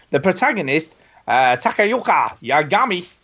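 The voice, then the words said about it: Weird put-on accent. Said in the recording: “I don't know why I put on a weird accent when I do that”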